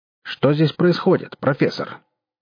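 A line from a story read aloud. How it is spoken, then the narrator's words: Stern yet cheerful question. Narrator (Russian): строго, но весело спросил Кудыкин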